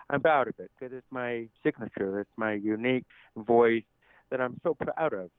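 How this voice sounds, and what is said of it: Deaf and hard of hearing accent. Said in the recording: “with my deaf accent, I know many people have asked if I'm from Canada or if I'm from England ... I do have a little somewhat of a deaf and hard of hearing accent”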